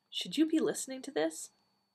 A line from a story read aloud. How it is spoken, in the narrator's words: Nyssa said softly